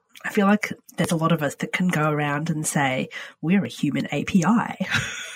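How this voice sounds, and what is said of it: Husky voice with a cold. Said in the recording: “excuse my voice. I've got a cold... excuse my husky tones”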